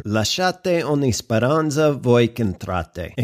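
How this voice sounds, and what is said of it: Oklahoma-flavored Italian accent. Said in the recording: “if you couldn't place that accent, it's called Oklahoma Italian”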